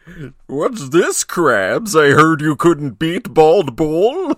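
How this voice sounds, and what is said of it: Poor cartoon character impression, Plankton. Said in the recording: “a terrible impression ... were you trying to be Plankton? ... You sound like my shady uncle at a golf resort”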